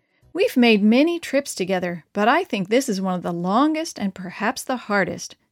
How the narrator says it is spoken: sighed Pastor Paulo Seidel to his friend and traveling companion

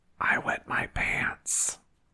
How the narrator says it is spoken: The little boy whispered

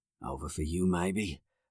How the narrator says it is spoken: Max said quietly

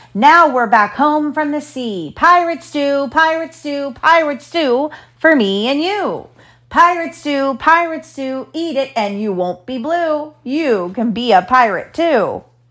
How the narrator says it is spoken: with one voice they all began, shouting out most joyfully

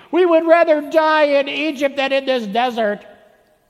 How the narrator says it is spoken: when their food supply ran out and they whined

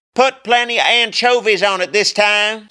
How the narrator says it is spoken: called out, staring at himself in the mirror while combing more slime through his hair

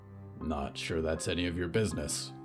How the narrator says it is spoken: muttered

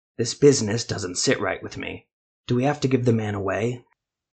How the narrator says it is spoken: He whispered to Yana and her apprentice

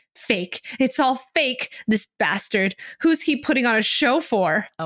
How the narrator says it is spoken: Cho Haitong screeches

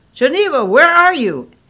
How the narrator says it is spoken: Angie yelled

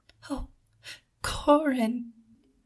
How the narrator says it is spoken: she whispered

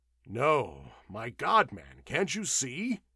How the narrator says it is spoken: exclaimed Doan fiercely

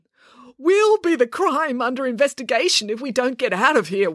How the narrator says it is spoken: wailed Dad

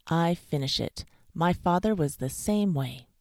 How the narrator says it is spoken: said the dentist firmly

